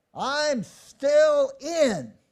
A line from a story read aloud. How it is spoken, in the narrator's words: from the back of the bus, a voice yells out